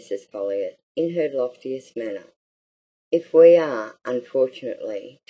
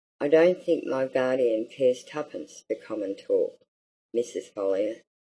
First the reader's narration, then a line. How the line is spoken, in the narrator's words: answered Mary